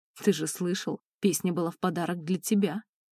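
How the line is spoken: Snorting smirk. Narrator (Russian): хмыкнул Драго

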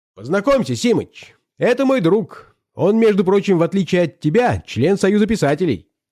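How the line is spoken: Loud, brash. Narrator (Russian): громко сказал Зельберович в обычной своей развязной манере

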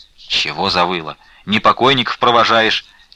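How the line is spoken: Angry with mournful undertone. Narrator (Russian): сердито попрекнул ей Трифон, но в суровых словах его слышалось что-то плачевное, горестное

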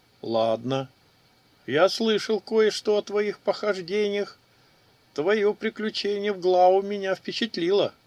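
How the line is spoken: Chuckle. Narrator (Russian): хохотнул Кадраж

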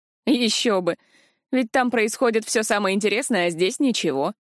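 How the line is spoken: Hmphing. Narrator (Russian): хмыкнул Арзан

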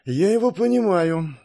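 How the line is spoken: Sighing. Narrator (Russian): вздохнул маг

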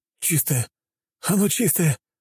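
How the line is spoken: Sobbing man. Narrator (Russian): Мужчина разрыдался

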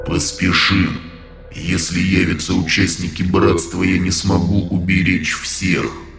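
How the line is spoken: Deep bass voice. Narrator (Russian): пробасил Михаил

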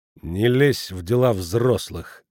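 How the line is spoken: Gloomy. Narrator (Russian): сказал он мрачно

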